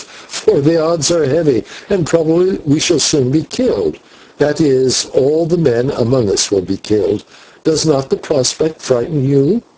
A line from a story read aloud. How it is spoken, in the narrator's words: he answered with a little laugh